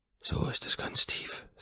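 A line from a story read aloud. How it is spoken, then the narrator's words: Hoarse voice. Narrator (German): sage ich heiser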